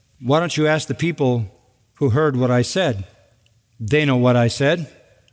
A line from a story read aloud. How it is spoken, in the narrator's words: Jesus calmly says